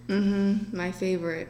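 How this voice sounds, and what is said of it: Sarcastic tone. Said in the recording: “That was sarcasm”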